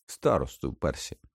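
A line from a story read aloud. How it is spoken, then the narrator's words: Mutter. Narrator (Ukrainian): пробурмотів Фред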